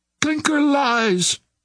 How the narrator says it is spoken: cried Devine

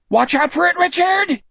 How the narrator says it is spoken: Jack screamed

